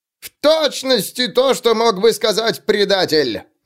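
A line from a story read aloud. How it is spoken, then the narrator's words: Shrieked. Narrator (Russian): завизжал Суорбрек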